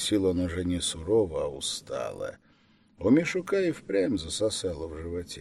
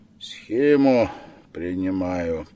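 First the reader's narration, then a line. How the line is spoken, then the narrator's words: Tired, flat. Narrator (Russian): вдруг сказал дядя устало, без выражения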